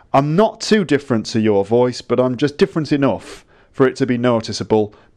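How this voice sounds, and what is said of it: Generic stereotypical northern English accent. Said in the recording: “I'm going to be slightly northern ... I'm just sort of generically northern, maybe from Manchester ... a slightly stereotypical northern accent. It's not very specific ... that's just sort of broadly northern”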